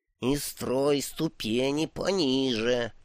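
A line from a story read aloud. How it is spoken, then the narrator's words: Strained hiss. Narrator (Russian): прошипел бог, с трудом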